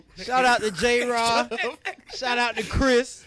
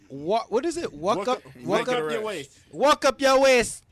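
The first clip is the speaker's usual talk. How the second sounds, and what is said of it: Put-on Jamaican accent. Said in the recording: “y'all like my Jamaican accent? ... Good job.”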